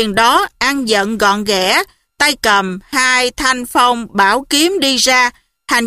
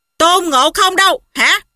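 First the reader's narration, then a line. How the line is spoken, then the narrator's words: Loud shouted question. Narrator (Vietnamese): La Sát ra ngoài cửa hét to hỏi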